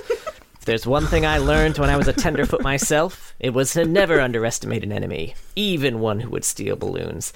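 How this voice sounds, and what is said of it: Serious Teemo detective voice. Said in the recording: “my Teemo impression... Very serious... It's how Teemo sounds... He's got a different voice when he puts on that detective hat”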